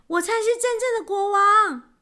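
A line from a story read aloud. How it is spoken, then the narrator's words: Loud outburst. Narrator (Chinese): 终于忍不住，立刻冲上前去，大喊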